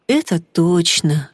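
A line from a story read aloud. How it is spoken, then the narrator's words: Sad. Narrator (Russian): печально кивнул Стас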